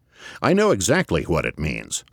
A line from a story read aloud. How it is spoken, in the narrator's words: said Galt